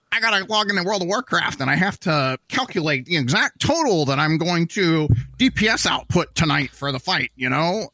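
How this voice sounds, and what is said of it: Nerdy character voice. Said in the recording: “That's like the nerd voice.”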